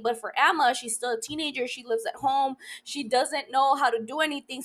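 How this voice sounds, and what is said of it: Talking very fast. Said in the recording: “why am I talking like a million hours? A million hour, a million miles an hour.”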